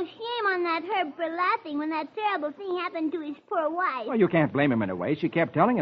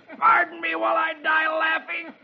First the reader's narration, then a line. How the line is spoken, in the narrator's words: Herb just roars